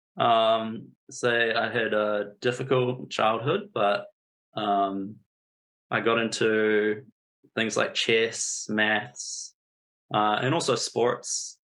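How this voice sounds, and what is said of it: New Zealand accent. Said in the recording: “I grew up in a small town in New Zealand. You can probably notice my accent.”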